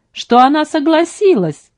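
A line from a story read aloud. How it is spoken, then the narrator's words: Guffawing. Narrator (Russian): Он хохотал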